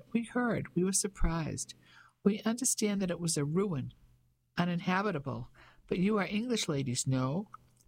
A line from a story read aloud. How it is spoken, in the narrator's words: His voice was light and quite high